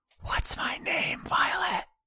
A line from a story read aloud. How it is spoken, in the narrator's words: a voice on the wind whisper